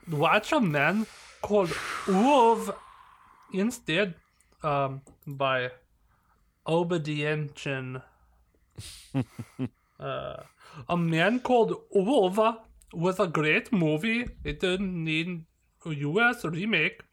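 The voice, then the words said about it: Put-on Swedish accent. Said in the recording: “Swedish / Viking accent.”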